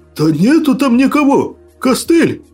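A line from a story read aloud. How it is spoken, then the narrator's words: Frightened shrill cry. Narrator (Russian): Звизнул сутулый, испуганно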